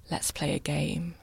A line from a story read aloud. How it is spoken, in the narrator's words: he whispered